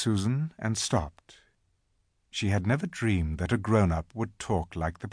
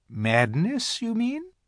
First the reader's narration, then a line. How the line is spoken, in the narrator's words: said the professor quite coolly